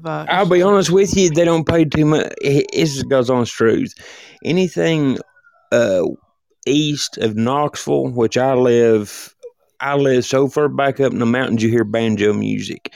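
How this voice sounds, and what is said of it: Tennessee Southern accent. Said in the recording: “Tennessee ... you got that accent.”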